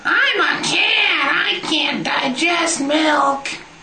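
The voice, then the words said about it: Silly cat character voice. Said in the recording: “my impression of a cat ... that was my cat voice”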